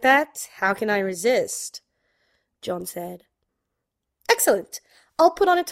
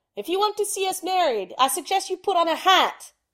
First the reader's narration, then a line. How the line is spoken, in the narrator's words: Sherlock shouted down the stairs